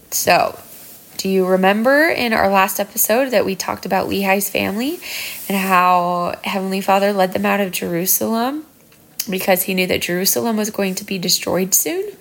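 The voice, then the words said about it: Sick, congested-sounding voice. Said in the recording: “everyone in my house has been sick this last week, so my voice sounds a little um, sick”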